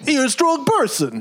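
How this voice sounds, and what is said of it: Vague New York Italian accent. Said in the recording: “I will do a perfect Mr. Turner accent... sort of New York, sort of Italian, but then some nebulous other accent... spot on”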